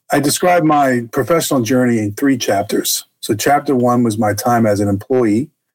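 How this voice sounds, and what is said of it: Boston accent. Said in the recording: “I was raised in Boston, Massachusetts. You probably hear that in my accent today”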